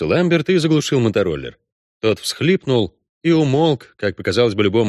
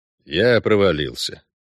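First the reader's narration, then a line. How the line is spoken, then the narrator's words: Gloomy report. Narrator (Russian): сообщил Геральт мрачно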